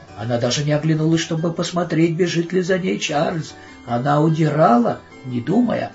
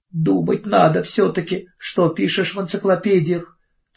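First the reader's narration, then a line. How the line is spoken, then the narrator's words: Sobbing. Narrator (Russian): всхлипывала она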